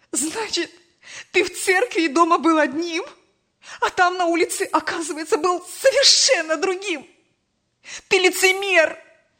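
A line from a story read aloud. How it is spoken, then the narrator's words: Tearful shouting, mother. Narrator (Russian): Сквозь слезы кричала мать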